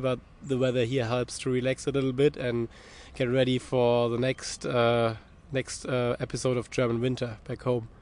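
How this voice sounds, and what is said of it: Sick, flu-affected voice. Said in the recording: “You can hear from my voice a little bit that my kids gave me as a farewell present the flu”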